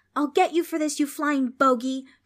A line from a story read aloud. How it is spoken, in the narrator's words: Trix shouted